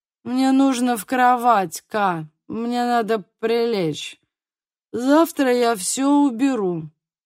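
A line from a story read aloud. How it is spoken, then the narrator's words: Groaning. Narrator (Russian): простонал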